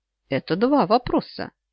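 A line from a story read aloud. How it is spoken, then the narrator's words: Quiet laugh. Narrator (Russian): тихо рассмеялся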